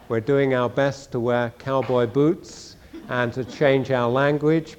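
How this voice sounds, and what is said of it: Non-American accent. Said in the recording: “as you might suspect from my accent, we didn't grow up in Nebraska”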